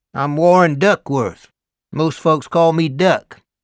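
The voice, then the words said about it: Deep Southern US accent. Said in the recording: “an unmistakable deep South accent”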